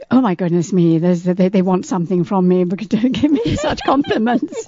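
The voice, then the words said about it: Refined British accent. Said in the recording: “she does have the most wonderful British accent. She has a great radio voice, too ... I love your accent ... You sound like the Queen should sound”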